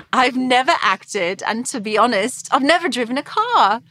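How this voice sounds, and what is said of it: Posh English accent. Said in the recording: “I'm an unknown 22-year-old English model ... I have this posh accent.”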